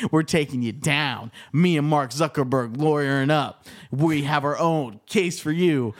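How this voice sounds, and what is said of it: Professional wrestler style trash-talk voice. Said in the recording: “you sound like a professional wrestler”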